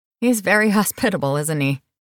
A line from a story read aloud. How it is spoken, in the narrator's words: Brandon chuckled